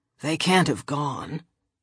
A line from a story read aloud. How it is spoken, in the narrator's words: he muttered